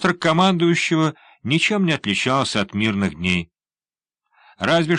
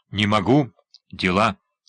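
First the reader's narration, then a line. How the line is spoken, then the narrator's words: Curt, clipped. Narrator (Russian): отрывисто бросил он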